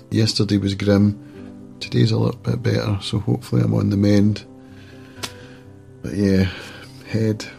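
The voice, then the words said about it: Congested voice from a cold. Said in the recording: “You'll hear in my voice, I'm suffering a wee bit today from a cold.”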